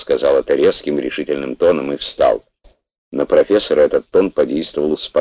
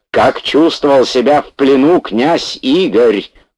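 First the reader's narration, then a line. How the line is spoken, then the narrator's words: Angry near-shout. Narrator (Russian): почти закричал профессор, опять испытывая прилив злости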